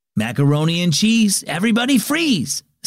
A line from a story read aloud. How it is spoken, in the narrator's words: Sam, the camp counselor, called out over the rowdy summer campers